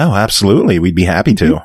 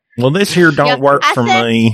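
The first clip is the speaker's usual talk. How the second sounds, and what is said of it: Put-on redneck accent. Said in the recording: “redneck accent”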